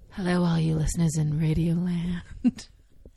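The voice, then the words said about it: Smooth sexy radio announcer voice. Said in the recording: “your sexy radio voice”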